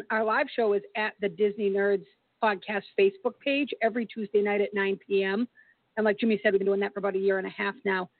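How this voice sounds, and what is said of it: Hoarse voice. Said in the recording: “my voice is a little hoarse today”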